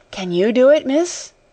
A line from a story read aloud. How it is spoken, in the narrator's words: faltered Becky